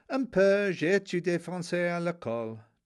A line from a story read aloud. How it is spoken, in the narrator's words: Tony replied with dignity and with an accent